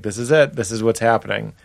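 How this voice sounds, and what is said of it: Cheerful, contented character voice. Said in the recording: “My impression of a happy person”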